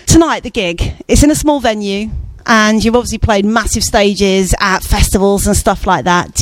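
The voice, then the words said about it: Broad common British accent. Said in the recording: “radio voice ... I just got this horrible accent. I sound really common.”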